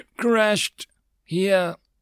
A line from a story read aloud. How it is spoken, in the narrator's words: Peter replied slowly, pronouncing each word carefully